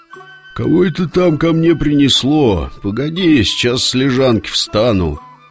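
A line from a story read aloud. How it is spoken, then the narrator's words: Sleepy reply, serpent. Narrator (Russian): сонно ответил змей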